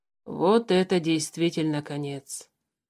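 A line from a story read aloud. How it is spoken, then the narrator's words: Doomed sigh. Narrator (Russian): обреченно вздохнул Тулис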